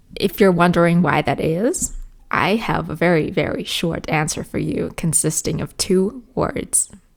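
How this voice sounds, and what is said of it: Somewhat Americanized accent, not perfect. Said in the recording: “my speech or accent or however you want to call it is quite Americanized ... I'm not saying I have the perfect American accent. I'm probably far from it ... you can definitely hear a little bit of inspiration from the US”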